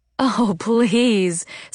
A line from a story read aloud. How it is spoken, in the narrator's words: said Joanna, breaking into laughter